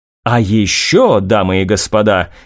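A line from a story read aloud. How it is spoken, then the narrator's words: Lowered, intriguing tone. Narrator (Russian): корреспондентка понизила голос и продолжила интригующим тоном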